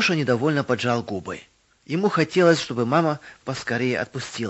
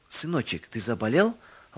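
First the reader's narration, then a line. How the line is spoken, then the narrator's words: Tender mother's question. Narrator (Russian): ласково спросила мама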